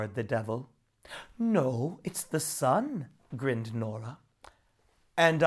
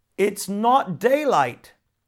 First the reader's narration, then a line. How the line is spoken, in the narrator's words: shouted the water devil